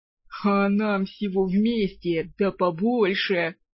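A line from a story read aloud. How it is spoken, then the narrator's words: Chuckling gnome. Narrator (Russian): хохотнул гном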